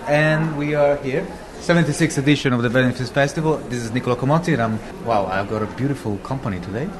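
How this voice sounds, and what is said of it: Italian accent in English. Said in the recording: “I'm Italian... my accent probably can give away a bit”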